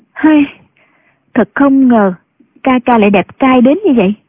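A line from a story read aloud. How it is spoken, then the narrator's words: Sighing. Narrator (Vietnamese): thở dài nói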